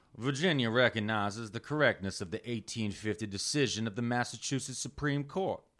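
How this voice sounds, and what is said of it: Put-on Southern drawl. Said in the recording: “I'm going to read this in my best Southern drawl I can.”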